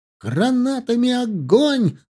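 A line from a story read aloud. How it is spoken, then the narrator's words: Yelling at full force. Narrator (Russian): заорал Пуганьков, что есть мочи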